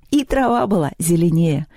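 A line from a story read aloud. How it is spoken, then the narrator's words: Laughing. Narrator (Russian): засмеялась Лёля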